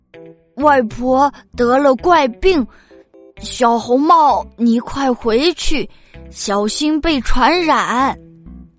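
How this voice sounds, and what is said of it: Faking the grandmother's voice. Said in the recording (Chinese): “装出海婆婆的声音说”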